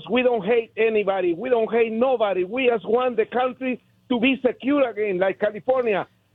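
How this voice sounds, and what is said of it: Heavy foreign accent. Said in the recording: “I have a beautiful heavy accent like Arnold Schwarzenegger”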